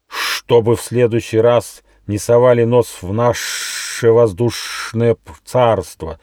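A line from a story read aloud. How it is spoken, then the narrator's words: Angry bat hiss. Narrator (Russian): злобно прошипела крупная летучая мышь, повиснув вниз головой на одной из веревочек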